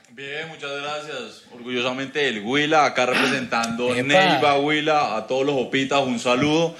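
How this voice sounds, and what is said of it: Drawling, slow Colombian regional accent. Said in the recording (Spanish): “le sale el acento ... es muy parecido como al santandereano ... más arrastrado, más lento”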